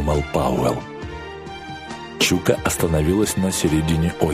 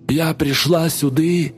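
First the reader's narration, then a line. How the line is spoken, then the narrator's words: Hoarse chanting. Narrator (Russian): хриплым голосом нараспев завела Чука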